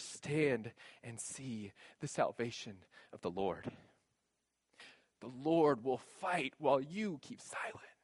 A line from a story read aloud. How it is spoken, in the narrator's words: this whisper would be in their ear